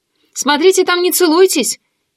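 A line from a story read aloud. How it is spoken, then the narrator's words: Calling out after someone. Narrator (Russian): крикнула Даша ей вслед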